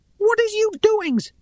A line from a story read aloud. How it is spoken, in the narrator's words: he cried from the tangle of green fronds